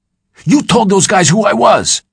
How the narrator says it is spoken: Hack screamed

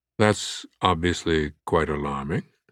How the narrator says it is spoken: Harris said quietly

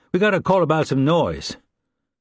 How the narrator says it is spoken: He then added in a loud voice

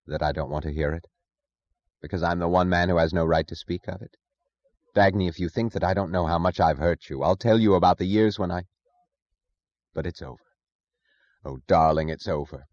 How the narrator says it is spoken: Her voice flat, she said only

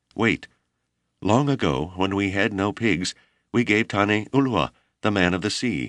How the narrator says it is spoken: Tororo, impassioned by his desire to start the colony correctly, cried

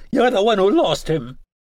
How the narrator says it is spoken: She caught her breath and screamed in my face

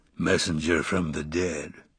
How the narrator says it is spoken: his voice rumbled

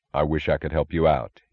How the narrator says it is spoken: he said

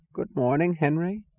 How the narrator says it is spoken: said a quavering voice

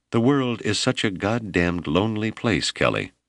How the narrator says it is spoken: she said in a soft southern drawl

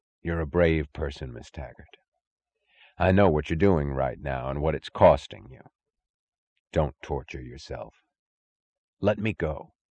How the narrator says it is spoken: said gently

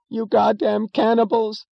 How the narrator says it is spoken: screamed a woman in the midst of a crowded movie theater, breaking into sudden hysterical sobs

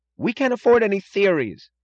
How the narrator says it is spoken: cried Wesley Mooch

